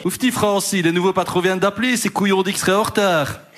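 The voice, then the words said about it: Weak put-on Liège Belgian accent. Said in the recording (French): “C'est quoi cet accent de Liège? ... je ne sais pas faire l'accent liégeois ... C'est entre Liège et Bruxelles.”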